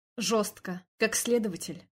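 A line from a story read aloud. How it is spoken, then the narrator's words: Plain. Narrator (Russian): спросил он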